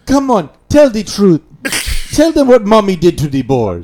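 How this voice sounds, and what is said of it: Imitates another person's voice. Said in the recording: “That's a terrible impression.”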